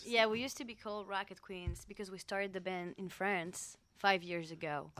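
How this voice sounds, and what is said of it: French accent. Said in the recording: “And so that that's the accent then. ... Yeah, that's the accent.”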